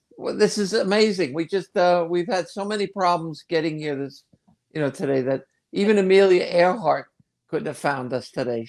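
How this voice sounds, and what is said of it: New Jersey accent. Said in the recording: “a killer Jersey accent”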